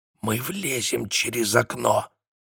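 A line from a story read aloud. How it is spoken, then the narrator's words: Whisper. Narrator (Russian): снова прошептал Люк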